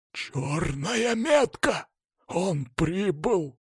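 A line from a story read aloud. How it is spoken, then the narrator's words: Whispered. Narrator (Russian): добавил шепотом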